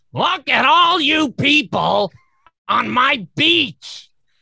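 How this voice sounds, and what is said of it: Gilbert Gottfried impression. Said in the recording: “That's a pretty good Gilbert Gottfried.”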